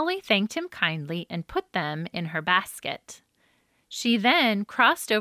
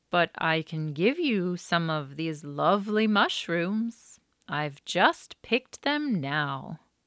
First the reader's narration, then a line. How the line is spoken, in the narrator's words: said Grandfather Snail in his slow voice